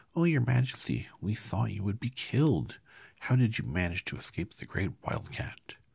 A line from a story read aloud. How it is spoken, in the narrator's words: when they saw their queen, they exclaimed